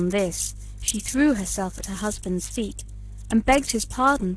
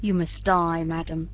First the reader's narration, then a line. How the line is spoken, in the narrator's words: said he